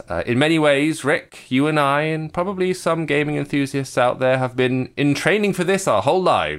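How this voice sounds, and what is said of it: English accent. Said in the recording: “we're in England, as you can tell from our accents”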